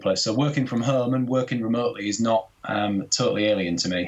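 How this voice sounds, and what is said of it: Yorkshire accent. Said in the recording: “I've just got a generic Yorkshire accent now, essentially ... I was going to say Yorkshire, and I was actually going to say Leeds.”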